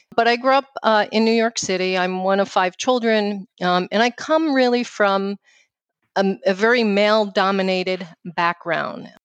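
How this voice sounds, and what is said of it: New York accent. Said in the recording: “That's my New York accent, uh, which I uh, am very proud of”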